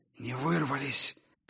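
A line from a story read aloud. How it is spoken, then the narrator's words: Hoarse croak. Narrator (Russian): прохрипела Сигрлин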